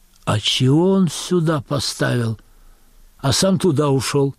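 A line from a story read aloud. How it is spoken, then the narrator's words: Woman's loud whisper. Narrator (Russian): Тетка в берете произносит громким шепотом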